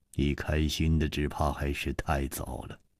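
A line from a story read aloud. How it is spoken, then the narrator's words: Sighing. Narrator (Chinese): 楚留香叹了一口气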